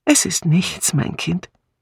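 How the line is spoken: Sighing, then smiling. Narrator (German): Miss Marple seufzte und sagte dann lächelnd

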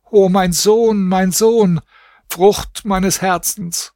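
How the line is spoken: Screaming, wailing. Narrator (German): schrie und jammerte

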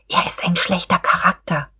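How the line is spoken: Whispered. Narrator (German): Frau von Wulkow wisperte

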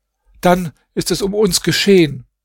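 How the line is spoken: Called out. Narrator (German): Nuam rief

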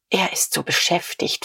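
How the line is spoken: Nervous whisper. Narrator (German): flüsterte Frau von Vulko ein wenig bleicher

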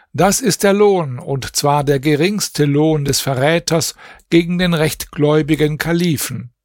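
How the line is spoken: Public proclamation. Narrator (German): man rief vor ihm aus

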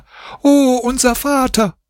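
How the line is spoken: Children screaming. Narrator (German): schrien die Kinder

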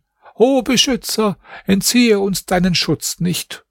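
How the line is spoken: Called out. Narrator (German): Er rief

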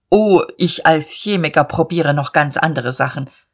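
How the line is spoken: Stern. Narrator (German): Er sagte mit streng gefalteten Brauen

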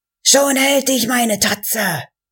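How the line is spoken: Screaming. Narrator (German): schrie

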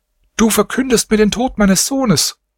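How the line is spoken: Mother crying out, sobbing. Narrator (German): Die Mutter rief heftig weinend

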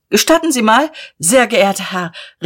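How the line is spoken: Calling out. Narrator (German): rief jemand

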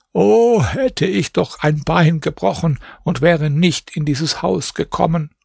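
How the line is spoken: Sighing old woman. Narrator (German): Die Alte aber seufzte

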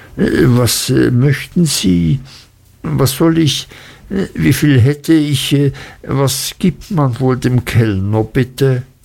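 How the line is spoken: Embarrassed stammering. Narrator (German): stammelte ich und wurde rot

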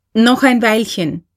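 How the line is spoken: Calling. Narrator (German): rief K

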